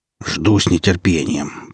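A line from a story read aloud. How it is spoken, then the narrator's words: Grumble. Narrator (Russian): проворчал Аса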